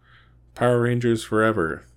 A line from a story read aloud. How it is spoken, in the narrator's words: the group cried out